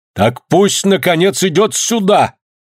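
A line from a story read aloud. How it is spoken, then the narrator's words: Shouted from behind wall. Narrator (Russian): крикнули за стеной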